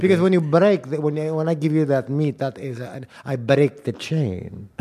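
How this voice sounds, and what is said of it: Put-on Greek accent. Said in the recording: “I did a Greek accent”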